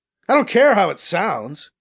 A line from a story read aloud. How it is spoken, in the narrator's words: BC shouts back at the glass